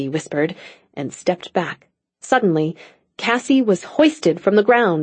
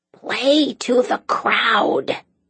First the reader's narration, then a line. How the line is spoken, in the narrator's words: Daisy instructed in a loud stage whisper